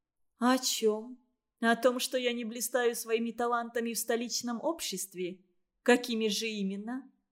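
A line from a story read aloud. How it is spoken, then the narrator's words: Warm laughter. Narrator (Russian): Ольга тепло рассмеялась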